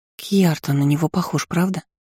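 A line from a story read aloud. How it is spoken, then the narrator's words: Whisper. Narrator (Russian): шепнула Иза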